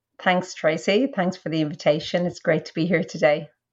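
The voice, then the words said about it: Irish accent. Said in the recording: “your accent is not purely an Australian accent ... I'm Irish.”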